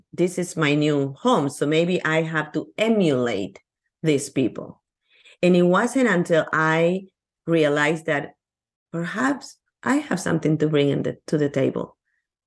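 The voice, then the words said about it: Peruvian Spanish accent. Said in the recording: “I'm from Peru, Lima, Peru, in South America... lessons to lose my accent”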